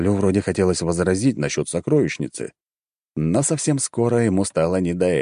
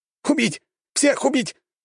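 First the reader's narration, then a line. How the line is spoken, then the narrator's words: Hysterical shriek. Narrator (Russian): Димакс, и зал наполнился его истерическим визгом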